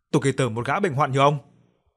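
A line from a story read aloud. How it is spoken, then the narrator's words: Loud yell. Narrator (Vietnamese): Cô hét lớn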